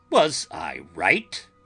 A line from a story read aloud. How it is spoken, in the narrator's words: asked triumphantly